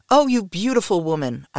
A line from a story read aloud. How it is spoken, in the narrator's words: cried